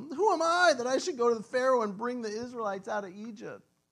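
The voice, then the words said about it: Whiny character voice. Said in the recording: “that's his whiny voice”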